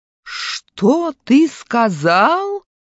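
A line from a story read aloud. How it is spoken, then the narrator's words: Menacing shout. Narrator (Russian): грозно кричит учитель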